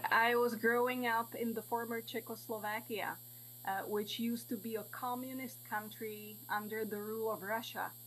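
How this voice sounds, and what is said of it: Foreign, non-American accent. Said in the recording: “Your accent sounds a little bit different than most of the people I deal with here in the States.”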